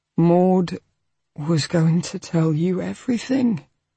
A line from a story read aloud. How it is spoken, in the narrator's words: he said sadly